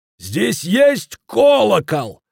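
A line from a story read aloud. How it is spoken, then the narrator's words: Shouting at old man. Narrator (Russian): заорал он на старика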